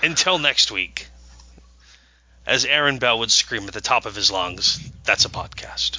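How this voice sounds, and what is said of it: Northern accent. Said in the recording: “a northern accent”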